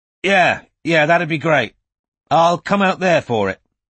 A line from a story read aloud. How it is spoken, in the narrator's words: Strike added loudly